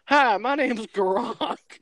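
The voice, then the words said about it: Put-on southern accent. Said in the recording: “Why does he have a southern accent?”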